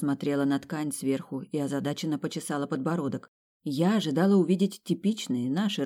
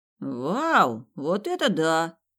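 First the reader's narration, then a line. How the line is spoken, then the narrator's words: Envious drawl. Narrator (Russian): завистливо протянул Чаки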